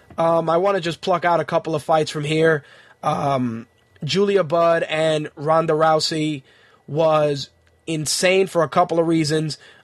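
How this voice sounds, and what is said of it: Hoarse, failing voice. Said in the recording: “I really am losing my voice. I apologize if I sound fucking terrible.”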